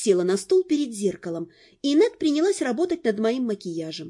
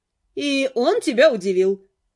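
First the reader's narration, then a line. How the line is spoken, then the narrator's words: Amused snort. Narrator (Russian): хмыкнула Нед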